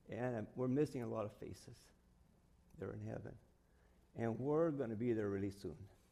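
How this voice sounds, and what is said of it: Emotional, choked-up voice. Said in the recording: “I get emotional up here ... Wow, I didn't think I was getting emotional.”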